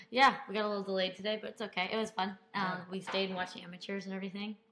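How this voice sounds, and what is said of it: Slightly hoarse, losing voice. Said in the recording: “Losing the voice, as you can tell a little bit.”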